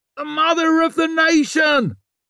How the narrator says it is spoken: shouted

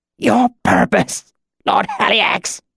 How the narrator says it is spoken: The words were choked out

